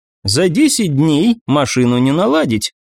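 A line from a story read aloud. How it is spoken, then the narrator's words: Retorting. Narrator (Russian): парировала графиня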